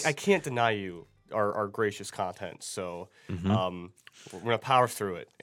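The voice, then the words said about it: Voice a little off, congested. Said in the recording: “if my voice sounds a little off, that's because I'm going through a bit of a cold”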